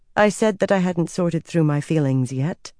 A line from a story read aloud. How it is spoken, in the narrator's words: she said coolly